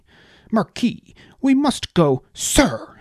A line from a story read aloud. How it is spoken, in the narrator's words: snapped Dell